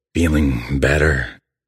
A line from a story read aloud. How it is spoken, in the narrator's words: The creature growls